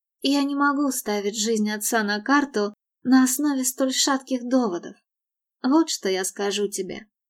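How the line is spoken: Sad. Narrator (Russian): грустно добавила она

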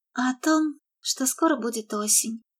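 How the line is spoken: Sigh. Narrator (Russian): вздохнула она

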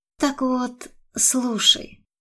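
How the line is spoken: Quiet. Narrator (Russian): тихо начала она

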